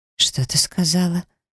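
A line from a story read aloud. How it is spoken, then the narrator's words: Hollow, shaken question. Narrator (Russian): заметно побледнев, глухо спросила она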